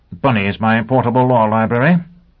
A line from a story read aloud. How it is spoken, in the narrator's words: Sheffield grunted